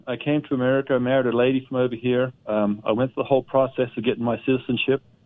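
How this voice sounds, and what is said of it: Australian accent. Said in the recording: “I detect some kind of an accent ... I'm from Australia.”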